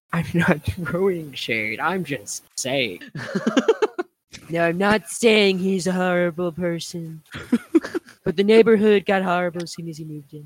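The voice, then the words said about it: Imitates another person's voice. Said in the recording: “That's what you sounded like ... impression ... that was spot on”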